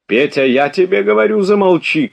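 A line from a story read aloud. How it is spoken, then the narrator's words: Shouted. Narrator (Russian): крикнул граф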